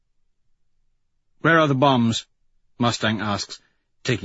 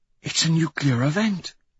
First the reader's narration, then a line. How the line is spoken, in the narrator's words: she whispers